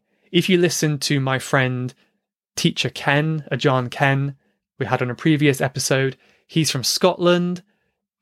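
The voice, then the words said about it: British accent. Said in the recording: “the British accent... I'm glad my accent isn't too hard for you”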